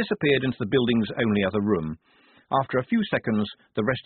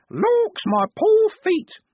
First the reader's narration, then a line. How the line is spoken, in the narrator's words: in varying tones of fingernail screech